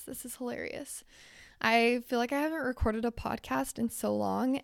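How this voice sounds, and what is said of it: Strained, fading voice. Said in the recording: “Oh, I'm really losing my voice.”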